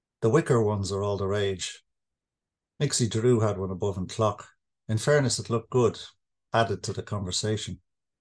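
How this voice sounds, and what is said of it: Slightly Irish dialect reading. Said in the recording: “It's in English, but it's in kind of slightly Irish dialect”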